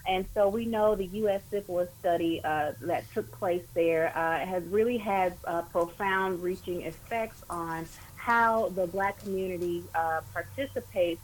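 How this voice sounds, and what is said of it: Southern American drawl. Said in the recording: “You may hear the southern drawl coming out of my voice, but I'm from Alabama”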